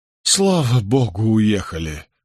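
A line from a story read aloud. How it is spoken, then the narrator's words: Relieved sigh. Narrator (Russian): вздохнул Соттертон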